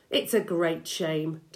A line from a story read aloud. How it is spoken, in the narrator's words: Doc Spencer said, sighing a little